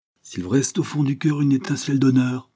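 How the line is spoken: Exclaimed. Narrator (French): s'écria-t-elle

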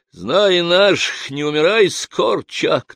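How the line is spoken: Joking with loud laughter. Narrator (Russian): кто-то с хохотом сострил

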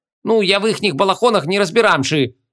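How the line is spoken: Snapping innkeeper. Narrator (Russian): огрызнулся корчмарь

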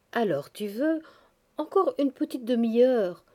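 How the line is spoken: Warm pleading. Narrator (French): suppliait chaleureusement Sonitchka

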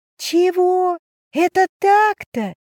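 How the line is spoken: Yelled silently in thought. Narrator (Russian): мысленно орала

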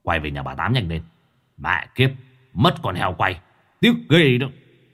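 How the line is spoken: Sullen grumbling. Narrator (Vietnamese): Lão Đại hậm hực

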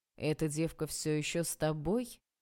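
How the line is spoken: Displeased question. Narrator (Russian): спросила недовольным голосом Валентина Анатольевна

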